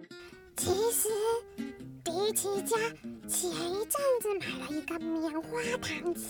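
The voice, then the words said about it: Whispered, quiet speech. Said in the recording (Chinese): “小声的说”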